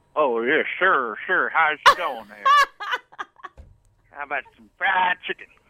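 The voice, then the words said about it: Put-on American accent. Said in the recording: “can you do an American accent?”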